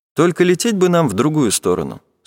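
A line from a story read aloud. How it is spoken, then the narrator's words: Plain. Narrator (Russian): сказал он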